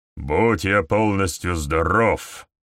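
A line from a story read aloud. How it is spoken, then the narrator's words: Grumble. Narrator (Russian): проворчал повелитель черных джеков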